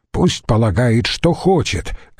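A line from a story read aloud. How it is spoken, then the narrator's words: Snapping. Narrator (Russian): огрызнулся Цицерон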